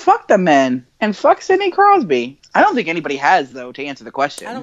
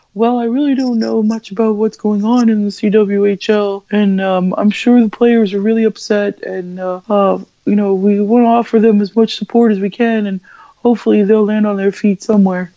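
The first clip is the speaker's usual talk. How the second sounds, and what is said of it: Imitates another person's voice. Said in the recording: “pretty good Sidney Crosby impression, actually ... my impression of ... impression”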